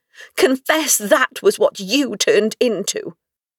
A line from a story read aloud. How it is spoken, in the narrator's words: she cried, triumphantly